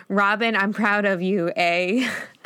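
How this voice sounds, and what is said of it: Robotic voice. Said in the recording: “in this robot voice, similar to the way Barney says it.”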